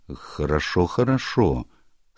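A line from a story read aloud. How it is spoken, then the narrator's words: Plain. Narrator (Russian): сказал доктор Стиллингфлит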